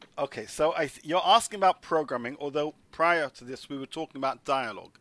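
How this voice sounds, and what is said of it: English accent. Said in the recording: “I've heard your accent from England.”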